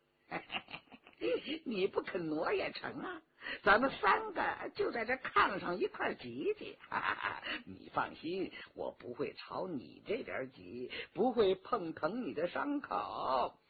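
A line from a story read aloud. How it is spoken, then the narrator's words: Leering, teasing. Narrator (Chinese): 佟兆和嬉皮笑脸地说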